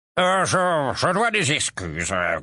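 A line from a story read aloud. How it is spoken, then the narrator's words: Grunted. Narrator (French): grogna une voix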